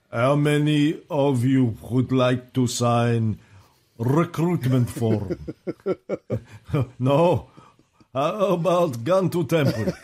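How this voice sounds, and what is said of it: Put-on foreign accent. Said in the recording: “my accents are all over the place. I can't think of my accent. I've got to think vodka, potatoes, vodka.”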